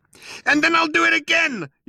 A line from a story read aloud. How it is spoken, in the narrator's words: yelled Arthur